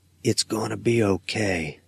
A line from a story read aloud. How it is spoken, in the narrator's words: I whisper to her